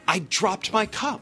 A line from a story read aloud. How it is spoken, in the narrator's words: Charles Reuben exclaimed as the pieces all began to fit together